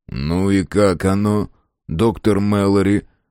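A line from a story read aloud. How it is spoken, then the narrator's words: Gloomy inquiry. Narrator (Russian): мрачно осведомился Фрейзер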